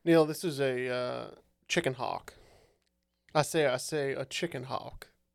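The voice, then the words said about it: Foghorn Leghorn impression, slow Southern drawl. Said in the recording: “I like your accent. ... It's like a it was not molasses good. Rolling out your mouth.”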